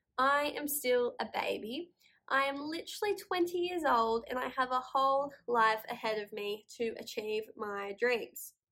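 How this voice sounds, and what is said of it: Slightly nasal, congested voice. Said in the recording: “I've been sick in bed the last couple of days, so sorry if that's why I sound a bit nasally,”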